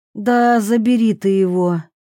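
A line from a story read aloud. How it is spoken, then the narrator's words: Breathy exhale. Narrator (Russian): выдохнула Аннабель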